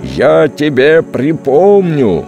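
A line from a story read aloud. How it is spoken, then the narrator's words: Shouting from afar. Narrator (Russian): прокричал уже издалека Грохов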